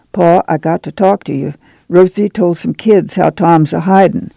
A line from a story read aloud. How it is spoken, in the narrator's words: Ma said softly